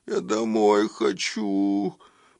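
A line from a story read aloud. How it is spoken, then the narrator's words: Whimpering. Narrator (Russian): проскулил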